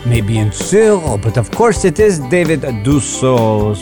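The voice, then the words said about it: Put-on French accent. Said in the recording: “talking with a French accent. I don't know why, I just decided to do it.”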